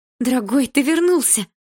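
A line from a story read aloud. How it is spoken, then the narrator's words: Joyful exclamation. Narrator (Russian): Радостно воскликнула мама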